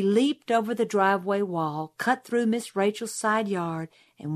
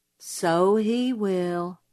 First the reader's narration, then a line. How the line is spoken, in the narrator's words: said Jim gloomily